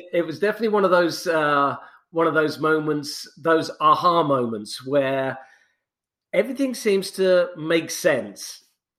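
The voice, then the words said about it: British accent. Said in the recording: “your nice little sweet little British accent”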